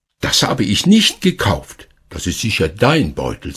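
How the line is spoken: Plain. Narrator (German): sagte sie

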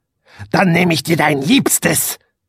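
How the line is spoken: Witch hissing. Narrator (German): fauchte die Hexe

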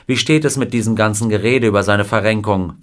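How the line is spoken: Plain question. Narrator (German): fragte ihn Wilder

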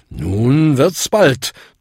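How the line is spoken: Thundering voice. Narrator (German): donnerte Bung

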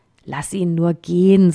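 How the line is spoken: Plain. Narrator (German): sagte ein anderer

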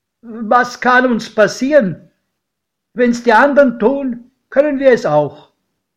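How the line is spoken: Called out. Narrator (German): rief mein Pate

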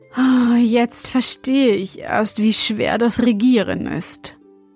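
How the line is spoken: Remark with deep sigh. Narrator (German): meinte er und seufzte tief

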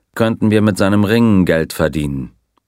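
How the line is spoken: Dry remark. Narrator (German): bemerkte der Colonel trocken

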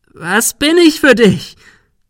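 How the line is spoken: Shrieking. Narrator (German): Sarah kreischte

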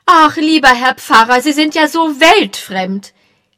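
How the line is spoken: Calling. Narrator (German): rief Mrs

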